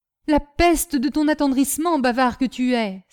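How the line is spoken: Exclaiming. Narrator (French): s'écria l'Indien

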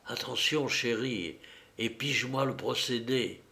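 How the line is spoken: Speaking very low. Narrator (French): Tout bas, il dit à Clara

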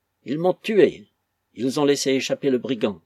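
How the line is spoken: Exclaiming. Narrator (French): s'écriait-il

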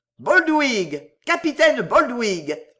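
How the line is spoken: Shouted by many voices. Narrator (French): vociféra-t-on de toutes parts

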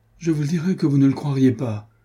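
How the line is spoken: Woman exclaiming. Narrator (French): s'écria-t-elle

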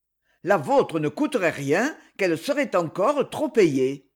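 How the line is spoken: Curt, dry. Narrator (French): répliqua sèchement monsieur Job

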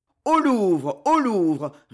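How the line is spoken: Furious rumbling mob. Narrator (French): répéta la voix furieuse et grondante de l'émeute

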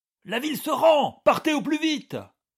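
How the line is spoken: Shouted. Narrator (French): lui cria un officier

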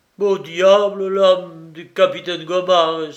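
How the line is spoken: Exclaiming. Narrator (French): s'écria-t-il

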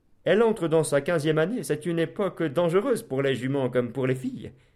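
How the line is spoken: Laughing at own joke. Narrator (French): dit le prieur en riant lui-même du bon mot

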